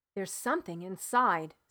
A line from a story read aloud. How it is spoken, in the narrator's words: said George